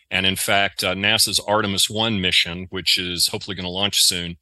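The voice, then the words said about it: Southern American accent. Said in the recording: “my southern accent here S A I L, uh, not cell, C E L L”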